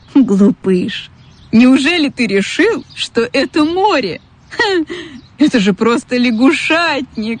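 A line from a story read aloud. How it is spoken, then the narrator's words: Laughing seagull. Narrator (Russian): Засмеялась чайка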